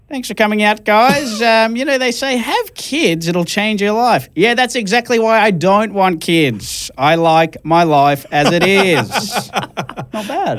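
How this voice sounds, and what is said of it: Stand-up comedy performance voice. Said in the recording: “in my comedy voice”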